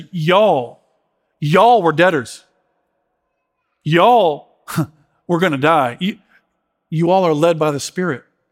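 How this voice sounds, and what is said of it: Put-on Southern accent. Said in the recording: “I want to talk with a Southern accent for some reason, funny”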